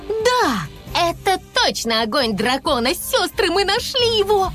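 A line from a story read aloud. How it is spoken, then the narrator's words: Speech then laughter. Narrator (Russian): сказала Айси и рассмеялась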